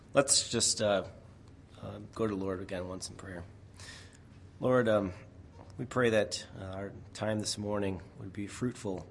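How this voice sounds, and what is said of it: Slightly raspy, strained voice. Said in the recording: “We will see how long my voice lasts. You'll notice it's a little raspy”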